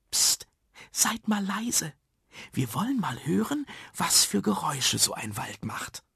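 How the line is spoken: Whisper. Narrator (German): flüsterte Frau Schill

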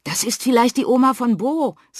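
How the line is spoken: Excited. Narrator (German): sagt Henry, aufgeregt

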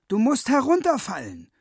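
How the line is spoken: Calling out. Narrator (German): ruft Willi Wutzke

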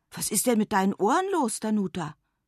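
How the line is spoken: Called. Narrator (German): ruft Lara

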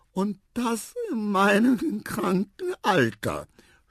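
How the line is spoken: Sobbing. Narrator (German): schluchzte Tante Elefa

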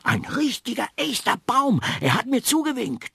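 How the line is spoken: Little girl calling out. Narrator (German): rief das kleine Mädchen

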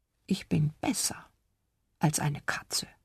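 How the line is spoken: Whispered. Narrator (German): flüsterte er

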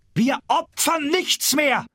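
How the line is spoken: Shout. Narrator (German): schrie Bébuquin auf die Straße

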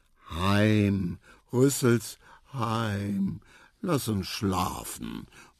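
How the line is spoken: Mumbling little elephant. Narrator (German): murmelte der kleine Elefant

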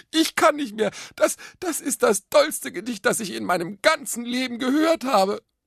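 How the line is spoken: Gasping. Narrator (German): Japste

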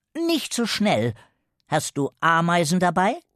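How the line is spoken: Stern female boss. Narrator (German): fragte die Chefin streng

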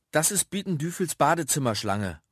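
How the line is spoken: Cheerful mother calling from afar. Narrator (German): ruft Mama gut gelaunt aus der Küche

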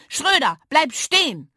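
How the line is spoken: Screaming at full volume. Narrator (German): Lilli schrie so laut sie konnte

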